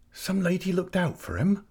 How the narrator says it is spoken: gasped Tess, starting

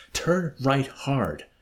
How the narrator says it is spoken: over the intercom at the very top of his voice shrieked

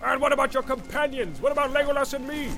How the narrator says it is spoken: cried Gimli, unable to contain himself longer

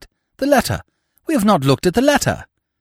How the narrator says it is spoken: I cried

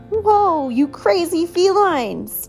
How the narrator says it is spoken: Francesca cried

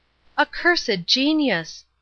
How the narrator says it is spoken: exclaimed the princess

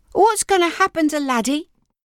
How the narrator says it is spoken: blurting out

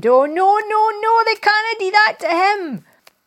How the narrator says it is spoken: Mary screamed

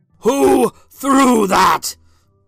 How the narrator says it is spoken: demanded in a choking voice

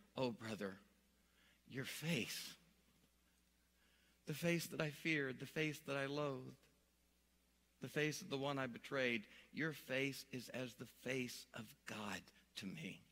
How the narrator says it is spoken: the eyes of Israel whispers to his brother

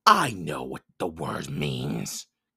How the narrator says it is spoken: Count Olaf growled

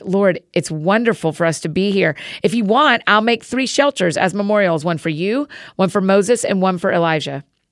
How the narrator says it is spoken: Peter exclaimed

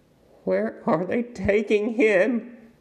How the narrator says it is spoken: the children's mother screamed

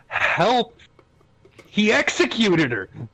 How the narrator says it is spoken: yell

